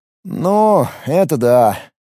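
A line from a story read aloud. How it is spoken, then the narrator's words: Glum reply, violinist. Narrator (Russian): уныло отозвался скрипач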